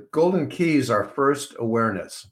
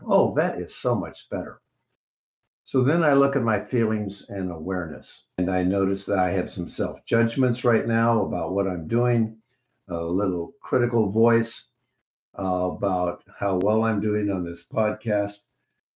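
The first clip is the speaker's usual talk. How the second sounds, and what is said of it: Slower, lower, relaxed voice. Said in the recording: “my voice is even slowing down a bit and is a little bit lower”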